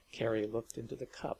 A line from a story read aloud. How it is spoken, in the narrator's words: murmured Gundelroy